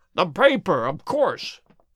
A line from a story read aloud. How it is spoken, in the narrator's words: yelled Holmes, in a paroxysm of excitement